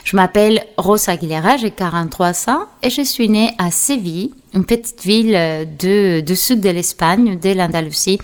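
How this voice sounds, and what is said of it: Speaks French with a foreign accent. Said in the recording (French): “vous vous reposez de mon accent”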